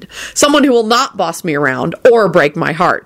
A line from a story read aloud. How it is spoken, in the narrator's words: she added to herself firmly